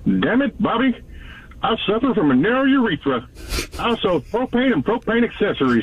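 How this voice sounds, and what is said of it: Hank Hill cartoon character impression. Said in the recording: “your own impression ... just give us your impression ... Hank Hill, good.”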